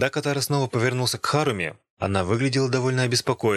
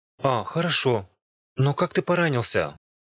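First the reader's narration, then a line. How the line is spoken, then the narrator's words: Relieved sigh. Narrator (Russian): Харуми вздохнула с облегчением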